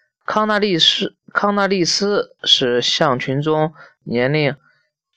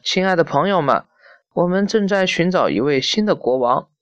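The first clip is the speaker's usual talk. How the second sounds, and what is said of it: Slightly trembling elderly voice. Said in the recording (Chinese): “他用微微颤抖的声音说”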